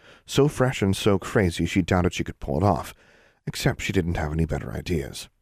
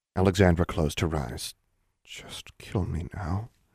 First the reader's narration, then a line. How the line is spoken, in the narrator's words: she muttered